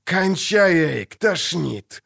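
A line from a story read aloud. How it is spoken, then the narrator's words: Growled. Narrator (Russian): рыкнул Богольд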